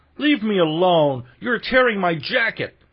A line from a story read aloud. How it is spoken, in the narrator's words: cried the unhappy victim, his exclamations of despair